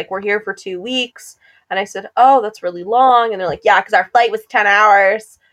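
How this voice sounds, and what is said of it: Usual voice. Nothing is said of it.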